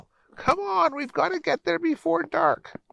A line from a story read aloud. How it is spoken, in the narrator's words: William would yell